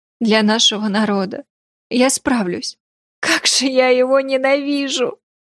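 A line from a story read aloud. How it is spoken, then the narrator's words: Sobbing speech. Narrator (Russian): Она окончательно разрыдалась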